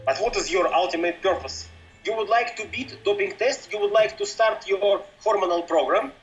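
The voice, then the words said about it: Russian accent. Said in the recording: “is the one that has a Russian accent”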